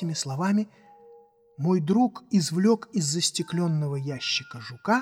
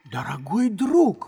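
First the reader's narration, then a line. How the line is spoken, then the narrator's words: Exclaimed. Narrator (Russian): воскликнул я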